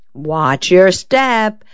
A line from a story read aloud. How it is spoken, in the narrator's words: pleaded the agitated Linda